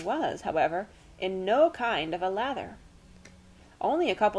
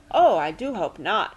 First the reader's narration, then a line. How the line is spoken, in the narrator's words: exclaimed